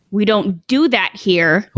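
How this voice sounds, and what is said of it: Stern scolding mom voice. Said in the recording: “mom voice on lock, though. Everyone gets scared. Even the dog gets scared.”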